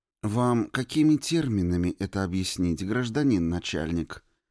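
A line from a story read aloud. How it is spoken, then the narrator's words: Sweet-voiced. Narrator (Russian): Сладким голосом осведомился Михаил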